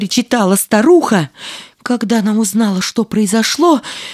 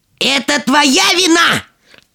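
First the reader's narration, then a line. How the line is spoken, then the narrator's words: Furious yell. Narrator (Russian): топая ногами от злости, заорала она на младшую дочь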